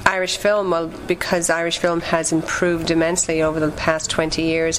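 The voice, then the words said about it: Faint, watered-down Irish accent. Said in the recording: “I'm Irish. I'm from Ireland, even though my accent is very watered down after being in Boston for almost 15 years.”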